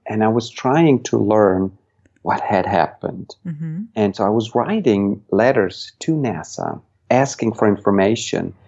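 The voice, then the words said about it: Swiss-accented English. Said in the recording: “you may have detected an accent... I grew up in Switzerland”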